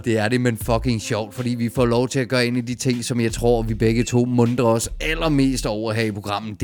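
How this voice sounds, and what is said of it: Hoarse, strained voice. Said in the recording (Danish): “jeg er jo næsten helt hæs herovre. ... Ja, det kunne jeg godt høre.”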